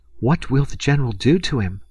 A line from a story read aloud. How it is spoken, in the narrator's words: inquired the girl anxiously